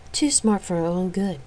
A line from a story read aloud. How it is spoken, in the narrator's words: Effingly sighed